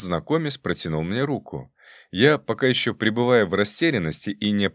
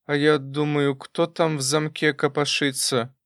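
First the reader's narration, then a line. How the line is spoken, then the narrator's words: Forced, strained words. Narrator (Russian): выдавила она из себя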